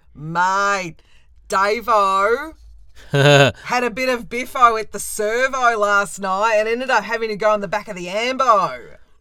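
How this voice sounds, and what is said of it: Broad Australian accent with slang. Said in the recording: “You guys speak Australian ... Australian English is a major variety of the language with a distinctive accent and lexicon, as you can tell by your hosts”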